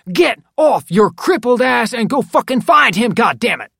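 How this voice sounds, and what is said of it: Loud barking shout. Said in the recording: “barked even louder”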